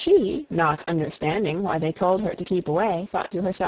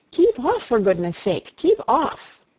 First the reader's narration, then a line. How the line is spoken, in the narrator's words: the others cried out